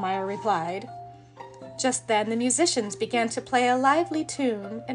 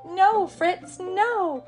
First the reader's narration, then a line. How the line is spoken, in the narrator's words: Clara cried, chasing him